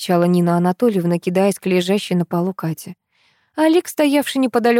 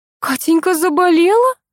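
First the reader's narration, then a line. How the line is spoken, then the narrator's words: Frightened question. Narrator (Russian): испуганно спросила Нина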